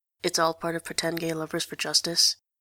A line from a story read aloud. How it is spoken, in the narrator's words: she mutters